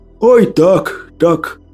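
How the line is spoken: Moaned. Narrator (Russian): простонал Василий

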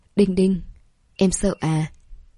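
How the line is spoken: Hoarse voice. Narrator (Vietnamese): Giọng nói khàn khàn

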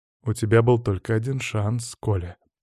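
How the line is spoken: Calmly said. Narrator (Russian): произнес я спокойно

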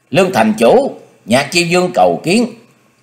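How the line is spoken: Raised voice call. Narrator (Vietnamese): dương giọng cao kêu lên

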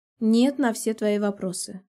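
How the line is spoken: Calm. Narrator (Russian): отвечаю спокойно

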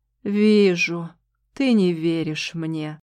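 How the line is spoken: Sigh. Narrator (Russian): вздохнул Шахрияр

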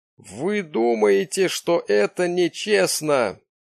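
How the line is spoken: Moaning. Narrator (Russian): простонал он

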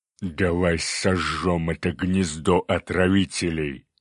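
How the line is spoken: Cyclops growl. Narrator (Russian): рыкнул циклоп

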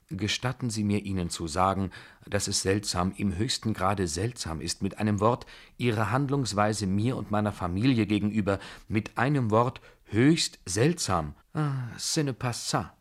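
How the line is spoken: General's gently reproachful tone. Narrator (German): begann der General in sanft vorwurfsvollem Tone

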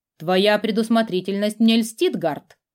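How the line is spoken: Snorting. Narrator (Russian): хмыкнул его знакомый

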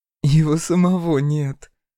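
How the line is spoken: Short laugh. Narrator (Russian): хохотнула Акулина

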